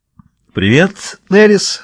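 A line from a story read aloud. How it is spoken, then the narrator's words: Joyful warm greeting. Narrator (Russian): сказал Реджинальд радостно, как будто только что вернулся с полюса и встретил старого друга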